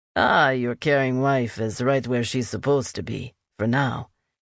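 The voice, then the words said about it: Deep voice, Latin American accent. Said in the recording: “The voice was deep, with a south-of-the-border accent.”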